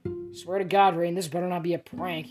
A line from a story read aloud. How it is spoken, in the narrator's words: Harry muttered